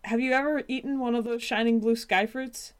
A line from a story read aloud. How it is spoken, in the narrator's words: Whether out of sheer panic or determination, Milkweed cried out